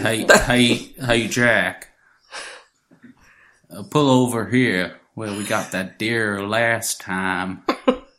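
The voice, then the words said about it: Put-on American Ohio accent. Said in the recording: “can you do that in a Ohio accent? ... It's an American accent.”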